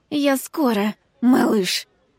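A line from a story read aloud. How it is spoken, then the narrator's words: Hiss. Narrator (Russian): прошипела я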